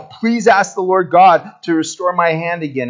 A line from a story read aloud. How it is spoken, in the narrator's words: he cried out